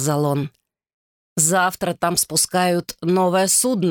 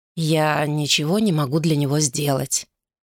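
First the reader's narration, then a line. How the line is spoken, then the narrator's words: Soft. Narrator (Russian): мягко сказал он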